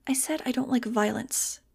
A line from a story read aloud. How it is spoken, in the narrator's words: she said quietly